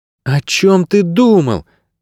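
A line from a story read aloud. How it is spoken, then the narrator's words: Exclaimed. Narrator (Russian): воскликнула Мирта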